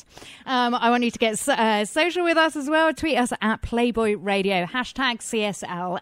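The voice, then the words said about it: English accent. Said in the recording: “my English accent, which, by the way, isn't put on despite what some people say”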